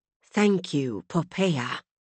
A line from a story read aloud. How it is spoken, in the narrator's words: Claire whispered